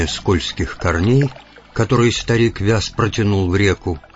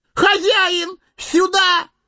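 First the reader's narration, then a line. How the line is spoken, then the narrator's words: Sudden yell. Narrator (Russian): завопил вдруг Сэмми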